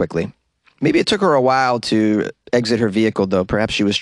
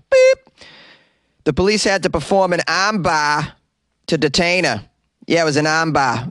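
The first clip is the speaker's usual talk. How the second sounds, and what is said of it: Put-on Boston accent. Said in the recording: “Armbar is a wonderful phrase, better said with a Boston accent, so let me redo that.”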